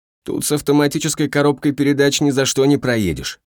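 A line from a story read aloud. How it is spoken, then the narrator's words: Laughing shout over shoulder. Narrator (Russian): подхахатывая, прокричал Халет через плечо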